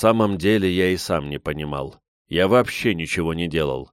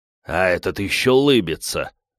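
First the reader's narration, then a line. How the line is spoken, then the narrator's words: Growled. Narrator (Russian): рыкнул парень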